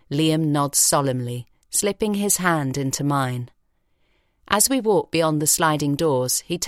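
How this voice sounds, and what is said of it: Usual voice. Nothing is said of it.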